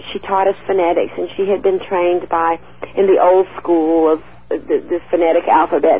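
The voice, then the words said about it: Southern American accent. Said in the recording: “I never lost my southern accent, obviously”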